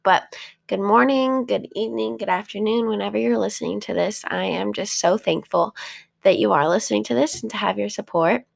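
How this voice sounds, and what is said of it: Sore, rough-sounding voice. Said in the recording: “Excuse the voice... sometimes my throat gets a little bit sore... sometimes my voice gets a little bit crazy when I wake up”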